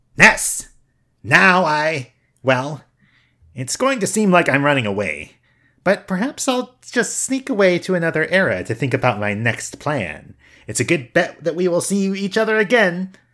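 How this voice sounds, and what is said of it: Villain character voice. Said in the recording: “Pokey pops up... My voice?... you're doing the voice. You're doing the voice.”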